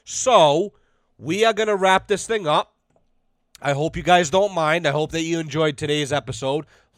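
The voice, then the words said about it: Sore, strained voice. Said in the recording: “My voice is fucking killing me.”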